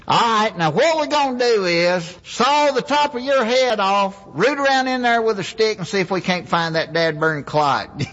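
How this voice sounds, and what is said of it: Put-on Southern accent. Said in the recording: “when people hear the Southern accent”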